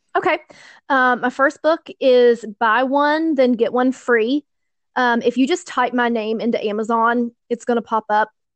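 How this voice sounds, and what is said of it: Southern American accent. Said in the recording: “I love your southern accent. It's so cute.”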